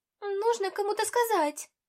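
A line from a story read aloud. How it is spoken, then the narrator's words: Exclamation. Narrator (Russian): воскликнула она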